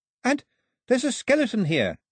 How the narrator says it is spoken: Daphne called out

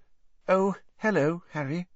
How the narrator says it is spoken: said in a brittle voice

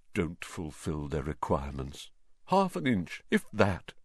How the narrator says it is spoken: Nearly headless Nick, the ghost of Gryffindor Tower, morosely, muttering under his breath

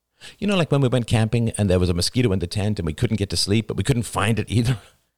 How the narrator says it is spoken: Cassie laughed

